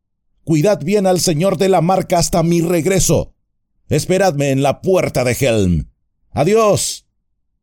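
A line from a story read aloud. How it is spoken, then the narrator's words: Shouted. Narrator (Spanish): gritó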